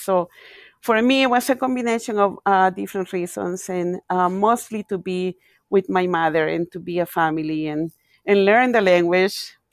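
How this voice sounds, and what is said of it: Non-native English accent. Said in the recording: “if you happen to hear an accent, it's because, you know, this is my second language.”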